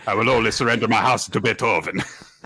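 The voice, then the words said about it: Put-on accent, possibly French. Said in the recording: “are you becoming French? ... See if you still have your accent.”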